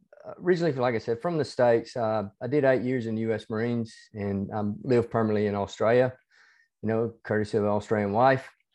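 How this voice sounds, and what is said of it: Hybrid Southern US and Australian accent. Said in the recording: “my accent, even though it's a hybrid accent between ... a little bit Australian, ... the southern United States and Australian”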